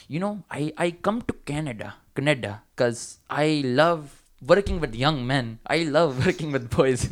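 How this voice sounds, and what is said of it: Put-on South Asian accent. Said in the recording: “I can't do Sri Lankan. I'm just gonna do a brown accent.”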